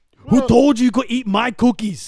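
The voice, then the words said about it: Yelling in an imitated voice. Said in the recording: “Why are you yelling”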